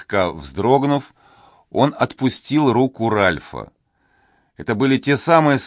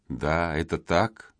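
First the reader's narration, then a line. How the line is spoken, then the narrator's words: Barely audible young man. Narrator (Russian): едва слышно произнес юноша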